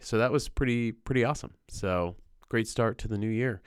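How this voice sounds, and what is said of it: Sick voice from a cold. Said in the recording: “you can probably hear it in my voice. I'm recovering from a cold ... I feel a lot better than I sound.”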